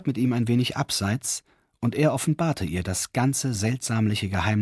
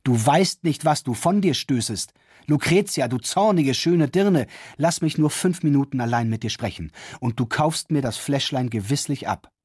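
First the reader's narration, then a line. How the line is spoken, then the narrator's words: Frightened shout, young man. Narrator (German): schrie der junge Kaufherr beängstigt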